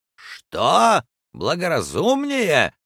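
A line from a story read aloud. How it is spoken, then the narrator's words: Stung shout. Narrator (Russian): закричал полковник Проктор, которого это слово тоже укололо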